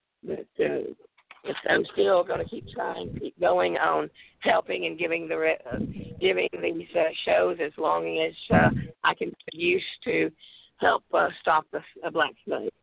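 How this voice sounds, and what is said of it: Crackling, strained weak voice. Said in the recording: “I do apologize about my voice ... my lungs aren't that strong, and I do keep giving out ... my voice is crackling”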